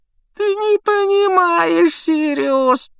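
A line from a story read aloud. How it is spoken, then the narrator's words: Whimpering. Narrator (Russian): проскулил Петтигрю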